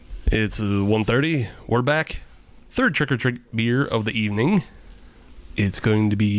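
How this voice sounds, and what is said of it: Usual voice. Nothing is said of it.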